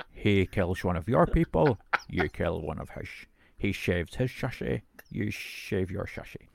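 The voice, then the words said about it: Sean Connery impression. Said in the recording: “just as well I'm not Sean Connery ... I can do an impersonation.”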